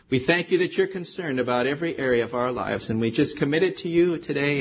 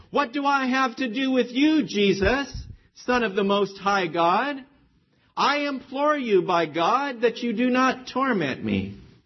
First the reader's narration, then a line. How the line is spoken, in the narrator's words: cried out with a loud voice and said